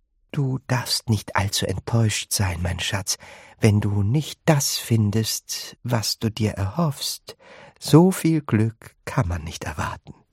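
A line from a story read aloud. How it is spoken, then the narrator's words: Gentle. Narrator (German): Bucket sanft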